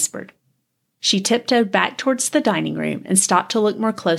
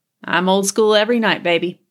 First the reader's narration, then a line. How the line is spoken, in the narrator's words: he laughed